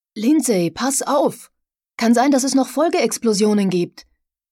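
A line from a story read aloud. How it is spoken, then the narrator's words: Calling out. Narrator (German): Conklin rief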